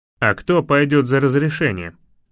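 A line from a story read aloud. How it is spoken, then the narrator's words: Guard's snort. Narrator (Russian): хмыкнул стражник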